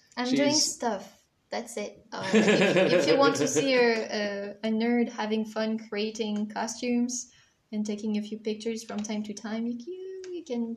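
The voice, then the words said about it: French accent. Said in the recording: “I'm sorry for the French accent.”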